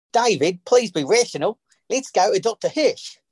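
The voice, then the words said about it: Attempted Tasmanian accent. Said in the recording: “is going to do this line in a Tasmanian accent. So he thinks.”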